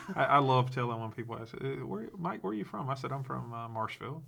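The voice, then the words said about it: Wisconsin accent. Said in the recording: “We still don't know what he says half the time. ... You and your Wisconsin accent.”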